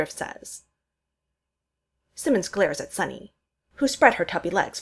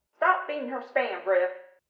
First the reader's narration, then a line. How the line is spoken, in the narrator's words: Sarge yells from the other room